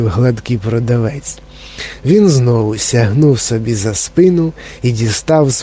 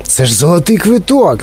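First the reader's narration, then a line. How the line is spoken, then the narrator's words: Shouted. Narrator (Ukrainian): закричав продавець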